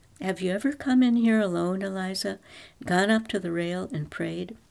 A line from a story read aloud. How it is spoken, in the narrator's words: In a relaxed, casual tone, the bishop said